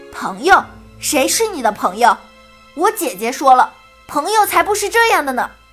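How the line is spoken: Loud shouting. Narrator (Chinese): 大声喊叫

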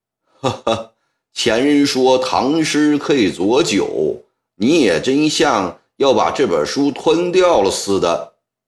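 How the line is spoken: Laughing. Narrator (Chinese): 欧阳兆雄笑道

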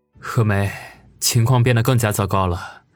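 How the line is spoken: Sudden sigh. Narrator (Chinese): 王宇忽然叹了口气，说道

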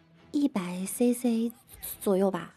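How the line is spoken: Quiet, sheepish confession. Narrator (Chinese): 女生一愣神儿，小声的坦白道

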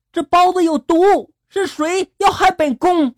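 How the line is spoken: Frightened woman, loud shout. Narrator (Chinese): 女子吓得她高声的大喊了

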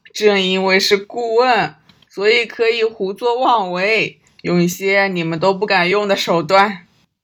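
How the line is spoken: Loud hearty laughter. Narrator (Chinese): 关正多朗声大笑道

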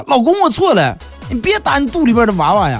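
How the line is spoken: Shouting. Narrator (Chinese): 她 说， 就喊

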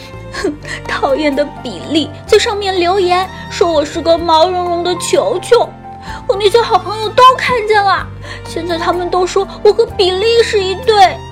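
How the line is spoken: Sobbing little bear. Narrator (Chinese): 小熊妹妹抽泣着说

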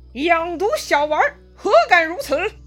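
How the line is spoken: Loud scolding. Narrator (Chinese): 钟会 大声责骂

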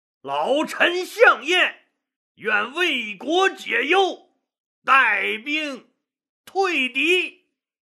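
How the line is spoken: Loud declaration. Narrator (Chinese): 大声说道

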